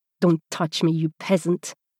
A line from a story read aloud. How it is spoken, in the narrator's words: he spat out in French